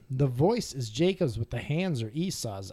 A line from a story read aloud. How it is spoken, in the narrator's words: Isaac said